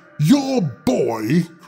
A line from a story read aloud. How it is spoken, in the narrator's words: cried she